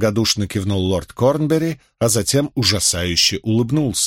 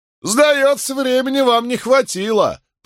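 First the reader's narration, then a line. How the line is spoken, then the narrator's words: Shouted from gallery, joker. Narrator (Russian): прокричал какой-то остряк с галерки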